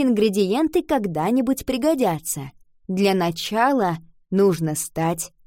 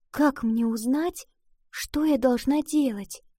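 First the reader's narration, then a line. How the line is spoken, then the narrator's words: Quiet question. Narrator (Russian): тихо спросила она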